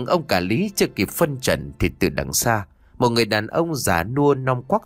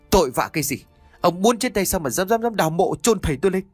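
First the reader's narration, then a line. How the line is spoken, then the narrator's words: Angry, puzzled shout. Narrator (Vietnamese): vừa giận vừa thắc mắc của ông Chánh quát lên một lần nữa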